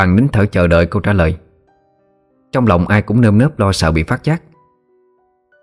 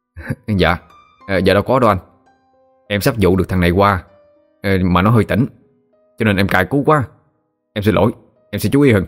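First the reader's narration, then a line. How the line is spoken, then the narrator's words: Smiling reply. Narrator (Vietnamese): mỉm cười, bảo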